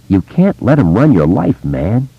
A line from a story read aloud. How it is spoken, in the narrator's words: Richie said softly